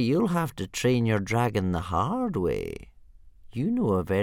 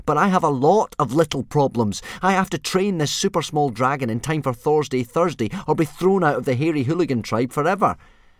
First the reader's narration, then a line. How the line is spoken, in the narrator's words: said Hiccup crossly